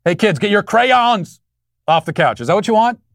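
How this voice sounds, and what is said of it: Baltimore accent. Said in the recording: “my pronunciation of crayon ... my Baltimore accent.”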